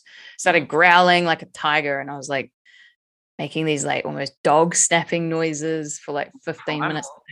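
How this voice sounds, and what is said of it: Slightly hoarse voice. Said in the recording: “my voice is not the same as usual today. Like, it's a little bit hoarse.”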